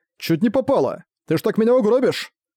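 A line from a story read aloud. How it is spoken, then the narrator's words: Angry shout. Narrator (Russian): сердито закричал Дейл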